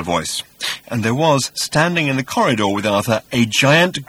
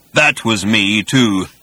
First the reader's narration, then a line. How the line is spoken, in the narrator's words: continued the voice in a low, menacing rumble